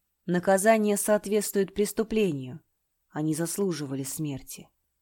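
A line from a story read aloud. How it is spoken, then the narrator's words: Cold. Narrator (Russian): холодно произнес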